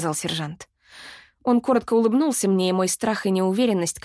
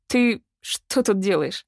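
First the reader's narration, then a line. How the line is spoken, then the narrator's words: Embarrassed mumble. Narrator (Russian): Неожиданно засмущавшись пробормотала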